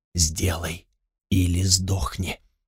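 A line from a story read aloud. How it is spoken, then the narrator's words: Quiet hoarse elderly whisper. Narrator (Russian): Тихий старческий хриплый голос шептал на ухо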